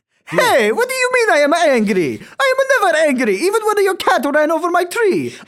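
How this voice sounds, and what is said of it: Angry exaggerated Italian accent. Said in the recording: “Italian is one of the happiest accents you can do ... almost impossible to sound grumpy in an Italian accent ... Can you be as angry as possible as an Italian?”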